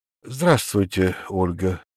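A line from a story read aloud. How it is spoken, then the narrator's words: Tired. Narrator (Russian): устало говорю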